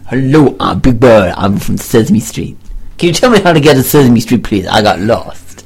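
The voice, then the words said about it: Big Bird character voice. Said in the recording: “I didn't know he talked like that... to change your accent”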